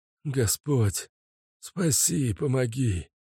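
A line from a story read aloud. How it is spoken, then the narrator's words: Hoarse, choking, to himself. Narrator (Russian): сам себе прохрипел Аркадий, давясь слюной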